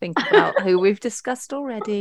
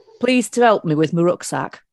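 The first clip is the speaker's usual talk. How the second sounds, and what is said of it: Put-on Yorkshire accent. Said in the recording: “said in the wrong accent ... Probably should do it in Yorkshire ... with the accent. You were so spot on as well.”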